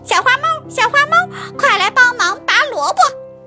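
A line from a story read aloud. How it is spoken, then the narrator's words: Loud shout. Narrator (Chinese): 小花狗大声喊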